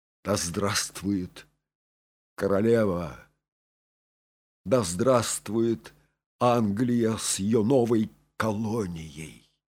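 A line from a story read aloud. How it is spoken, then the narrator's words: Weakening voice. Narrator (Russian): произнес Патрик слабеющим голосом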